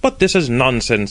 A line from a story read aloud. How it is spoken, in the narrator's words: exclaimed the hostess